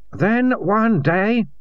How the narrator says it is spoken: said Marco loudly

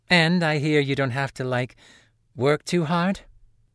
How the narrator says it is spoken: She chuckled, less nervous than before

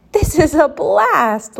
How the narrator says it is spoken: Leah said with a giggle

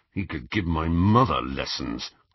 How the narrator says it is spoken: growled Ron

